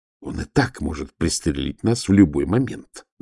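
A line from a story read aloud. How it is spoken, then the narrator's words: Hissing. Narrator (Russian): зашипел Волин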